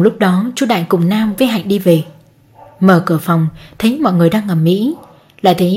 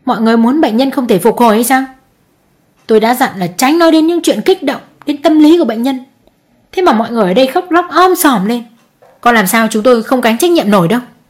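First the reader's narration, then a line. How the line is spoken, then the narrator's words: Angry, harsh. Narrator (Vietnamese): Bực tức, bác sĩ tỏ thái độ gay gắt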